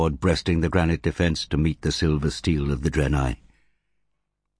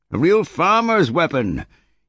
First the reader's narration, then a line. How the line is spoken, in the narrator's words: yelled Gilad, during a brief lull